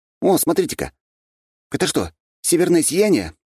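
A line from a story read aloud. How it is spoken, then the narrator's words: Surprised exclamation. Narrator (Russian): удивленно воскликнул я, когда на небе вспыхнуло нечто очень похожее на это природное явление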